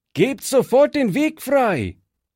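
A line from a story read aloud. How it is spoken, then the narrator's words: Shouted command. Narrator (German): rief Fritz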